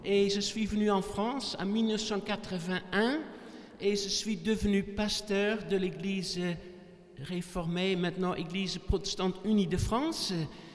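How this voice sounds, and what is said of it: Dutch accent speaking French. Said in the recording (French): “Vous avez déjà remarqué mon accent. Je ne suis pas français de naissance. Je suis né aux Pays-Bas, donc la Hollande.”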